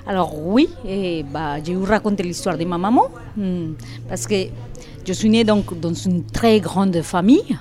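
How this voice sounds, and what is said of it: Colombian accent speaking French. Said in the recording (French): “vous avez un accent de Colombie, vous êtes colombienne”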